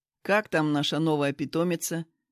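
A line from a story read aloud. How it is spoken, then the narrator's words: Plain question. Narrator (Russian): спросил Руслан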